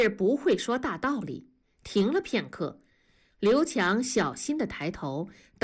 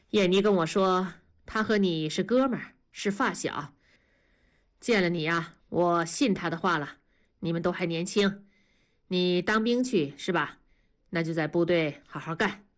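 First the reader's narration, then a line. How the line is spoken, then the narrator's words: Calm, pitying. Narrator (Chinese): 同志似乎心生怜悯了，声音变得平静说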